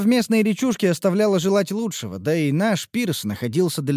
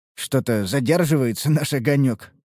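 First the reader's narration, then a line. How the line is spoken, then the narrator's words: Wry grunt. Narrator (Russian): хмыкнул я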